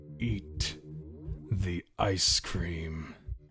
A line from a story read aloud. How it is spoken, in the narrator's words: he said, his voice foreign and dark